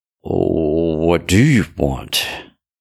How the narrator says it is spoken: His voice sounded shaky

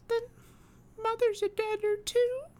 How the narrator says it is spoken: cried the little girl, sobbing bitterly

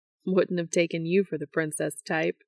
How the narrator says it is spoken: Dean says, grinning

